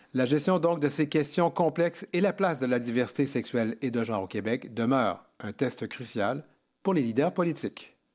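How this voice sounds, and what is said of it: Quebec French accent. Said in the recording (French): “depuis Montréal ... ton bel accent”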